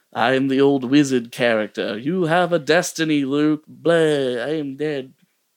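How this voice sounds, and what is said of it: Old wizard character voice, shifting accent. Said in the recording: “I got a little different accent there at the end ... at least you didn't sound like droopy”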